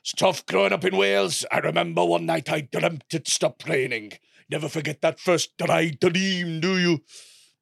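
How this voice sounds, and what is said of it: Gruff Welsh accent impression. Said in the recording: “Sort of has a gruff Welsh voice like this ... That's a good impression.”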